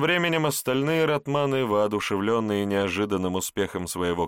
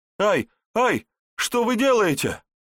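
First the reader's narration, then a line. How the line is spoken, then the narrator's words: Terrified scream. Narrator (Russian): В ужасе закричал герр Отто Штальке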